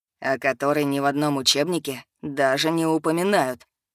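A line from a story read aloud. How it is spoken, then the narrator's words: Low chest voice. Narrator (Russian): добавил низким грудным голосом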